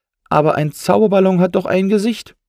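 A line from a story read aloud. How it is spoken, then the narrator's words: Call. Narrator (German): rief nun Matti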